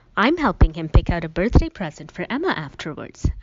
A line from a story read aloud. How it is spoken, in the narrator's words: Allison said quickly